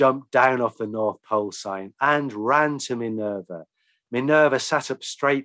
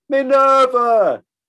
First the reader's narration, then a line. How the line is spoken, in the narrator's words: cried Edmund